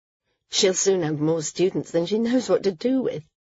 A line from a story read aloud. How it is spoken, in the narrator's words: Maris chuckled